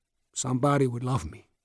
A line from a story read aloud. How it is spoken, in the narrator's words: he said softly